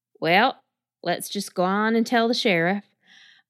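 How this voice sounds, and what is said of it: Put-on country accent. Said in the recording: “I just did a country accent”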